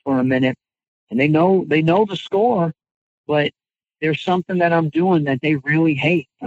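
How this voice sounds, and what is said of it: Usual voice. Nothing is said of it.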